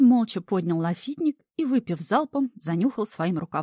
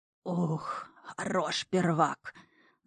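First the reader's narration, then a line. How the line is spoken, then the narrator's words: Wheezing. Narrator (Russian): Засипел он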